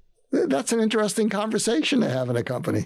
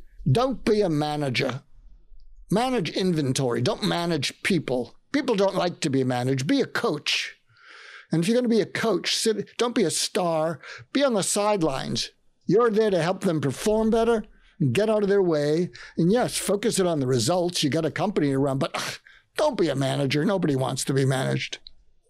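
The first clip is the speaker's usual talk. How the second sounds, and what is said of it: Put-on Australian accent. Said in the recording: “he says in an Australian accent”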